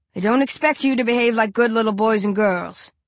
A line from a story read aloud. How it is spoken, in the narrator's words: Burke says on the tube, to a chorus of jeers and whistles